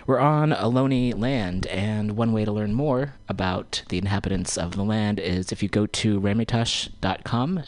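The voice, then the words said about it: Tired, sleepy-sounding voice. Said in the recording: “You can tell by my voice, I'm a little bit tired. I'm waking up a bit”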